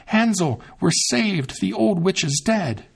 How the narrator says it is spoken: Gretel ran straight to Hansel, opened the pen, and cried out

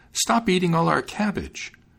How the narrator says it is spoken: cried the maiden

